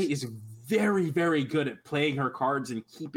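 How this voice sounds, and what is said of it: Usual voice. Nothing is said of it.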